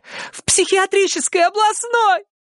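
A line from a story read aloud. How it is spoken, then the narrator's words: Bursting into sobs. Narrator (Russian): разрыдалась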